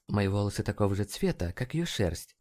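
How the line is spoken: Muttered. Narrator (Russian): пробормотала МДжей

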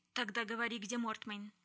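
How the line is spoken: Icy, curt. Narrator (Russian): ледяным голосом отрезала Шарлотта

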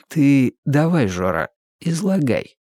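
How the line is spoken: Deceptively soft request. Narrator (Russian): обманчиво мягко попросил Иванов

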